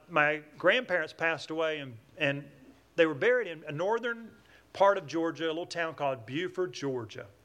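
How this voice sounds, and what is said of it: Southern American twang. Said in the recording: “I'm from Atlanta, Georgia. That's where I get this southern twang.”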